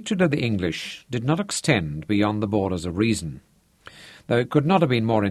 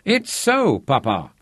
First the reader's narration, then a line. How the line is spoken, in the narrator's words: Manfred cried